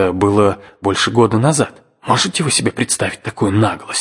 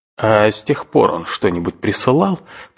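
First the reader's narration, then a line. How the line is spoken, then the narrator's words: Grumbling uncle. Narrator (Russian): проворчал дядя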